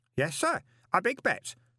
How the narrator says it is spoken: said Stanley happily

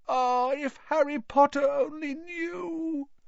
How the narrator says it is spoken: Dobby groaned, more tears dripping

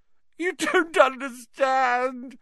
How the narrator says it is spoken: whined Pettigrew

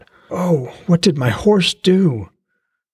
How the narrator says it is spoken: urged one voice

